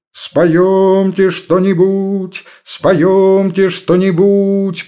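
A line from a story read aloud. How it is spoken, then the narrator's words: Loud chorus joining in. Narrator (Russian): подхватили громко остальные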